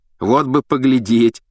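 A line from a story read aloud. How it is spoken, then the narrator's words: Giggling. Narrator (Russian): хихикнул Рон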